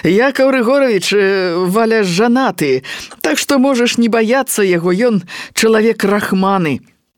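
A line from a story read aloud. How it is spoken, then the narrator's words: Loud, laughing. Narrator (Belarusian): сказаў гучна са смехам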